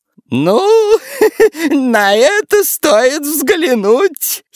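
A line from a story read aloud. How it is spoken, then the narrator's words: Giggling grandmother. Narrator (Russian): хихикнула бабушка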